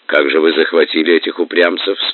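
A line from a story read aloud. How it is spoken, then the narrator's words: Plain. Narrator (Russian): спросил Батухан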